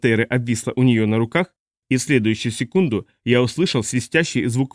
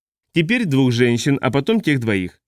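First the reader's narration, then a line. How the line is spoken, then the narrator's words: Plain. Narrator (Russian): сказала Недди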